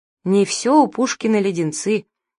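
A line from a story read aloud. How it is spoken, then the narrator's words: Sad declaration. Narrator (Russian): заявлял он, печально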